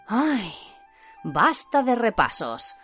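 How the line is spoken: Relieved sigh. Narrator (Spanish): suspiró aliviado Ron

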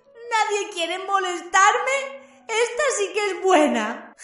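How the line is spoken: Moaning. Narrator (Spanish): gimió Myrtle

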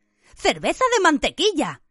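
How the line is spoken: Thoughtful exclamation. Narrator (Spanish): exclamó Harry reflexivamente

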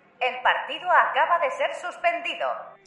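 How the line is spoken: Shouted through megaphone. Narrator (Spanish): gritó por el megáfono la profesora

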